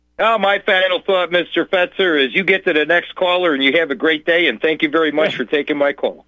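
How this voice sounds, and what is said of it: Strong Chicago accent. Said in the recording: “He has such a consummate Chicago accent.”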